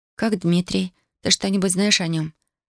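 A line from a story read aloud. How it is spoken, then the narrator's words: Plain. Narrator (Russian): спросила Татьяна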